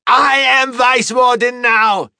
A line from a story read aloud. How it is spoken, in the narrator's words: Di Shen snapped